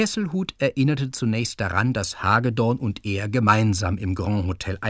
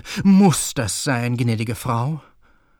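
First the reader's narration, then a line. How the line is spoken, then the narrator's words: Groaning. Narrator (German): stöhnte Keller auf und sagte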